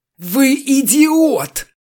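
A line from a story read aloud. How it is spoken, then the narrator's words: Howling. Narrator (Russian): взвыл Чертослепов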